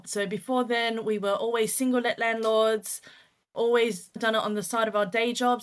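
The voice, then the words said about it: Australian accent. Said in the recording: “We started in Australia, which is where we're from. You could probably tell that the accent isn't as British as you'd probably find.”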